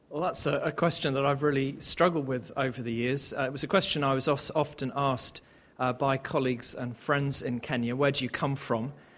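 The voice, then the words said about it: English accent. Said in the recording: “he's got an English accent.”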